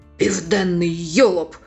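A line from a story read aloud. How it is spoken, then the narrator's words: Hoarse puppet bark. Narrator (Ukrainian): Маріонетка в зеленому шоломі хрипким голосом гаркнула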